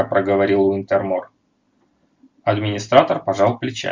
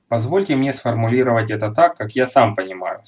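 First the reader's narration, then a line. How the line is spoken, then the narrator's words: Plain. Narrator (Russian): сказал он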